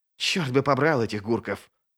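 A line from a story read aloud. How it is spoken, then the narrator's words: Hissing. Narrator (Russian): прошипел стириец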